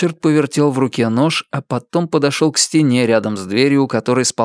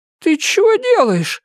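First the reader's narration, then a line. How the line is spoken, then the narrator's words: Frightened old woman. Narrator (Russian): испуганно спросила старуха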